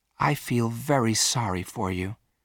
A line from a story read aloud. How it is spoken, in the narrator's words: said Virginia quietly